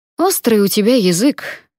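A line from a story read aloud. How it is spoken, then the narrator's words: Snort. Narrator (Russian): фыркнул пристав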